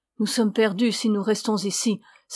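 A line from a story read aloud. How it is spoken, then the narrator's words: Exclaimed. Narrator (French): s'écria Alessandro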